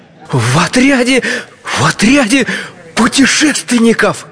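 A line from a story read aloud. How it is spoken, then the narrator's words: Enthusiastic exclamation. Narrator (Russian): с энтузиазмом воскликнул чайный пакетик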